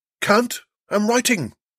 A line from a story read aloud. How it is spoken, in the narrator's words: shouted back